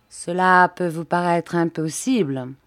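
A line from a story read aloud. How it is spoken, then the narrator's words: Cold. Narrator (French): dit froidement Sir Russell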